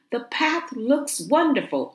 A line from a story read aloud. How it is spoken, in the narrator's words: a lark called out